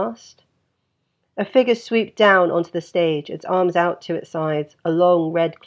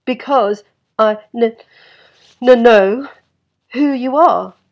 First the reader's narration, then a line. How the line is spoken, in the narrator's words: Steve stuttered, finding his voice